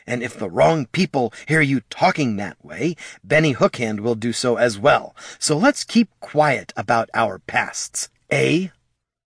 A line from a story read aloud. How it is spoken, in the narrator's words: Haraldin leaned in close to whisper harshly